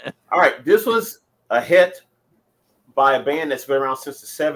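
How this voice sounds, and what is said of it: Usual voice. Nothing is said of it.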